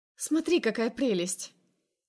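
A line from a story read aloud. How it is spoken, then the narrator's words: Exclaimed. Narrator (Russian): Восклицает тетя Рая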